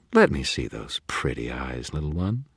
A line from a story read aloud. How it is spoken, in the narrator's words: she purred